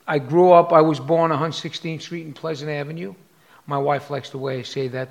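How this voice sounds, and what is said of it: New York City accent. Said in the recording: “if you can tell by my accent, I'm from Oklahoma. No, I'm kidding. I am from New York City, obviously.”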